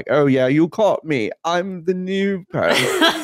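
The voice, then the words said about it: Deliberately bad put-on English accent. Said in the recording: “John Malkovich doing the worst fucking English accent I've ever heard in my life”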